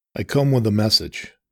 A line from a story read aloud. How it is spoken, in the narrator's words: he replied, his voice growing somber